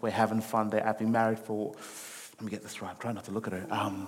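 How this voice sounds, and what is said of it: Mixed Australian, African and American accent. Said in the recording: “my accent kind of flows in and out of the place. So you'll hear a little bit of Australian, you hear a little bit of the African will come out to play every now and again ... The American will definitely, you will feel the American hit you really hard.”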